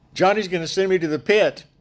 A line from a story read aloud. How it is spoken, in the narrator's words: he's yelling